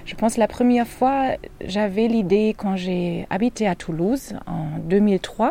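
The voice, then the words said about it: Slight foreign accent. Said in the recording (French): “avec un petit accent bien à elle”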